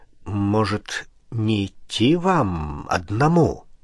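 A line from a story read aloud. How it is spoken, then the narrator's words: Uncertain question. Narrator (Russian): Он спросил неуверенно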